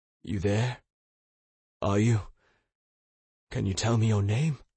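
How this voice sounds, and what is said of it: Broken, coaxing voice. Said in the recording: “cajoled in a broken voice.”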